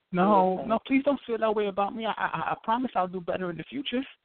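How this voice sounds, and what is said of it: Whiny pleading voice. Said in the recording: “Are you whining? Why are you sound like a bitch?”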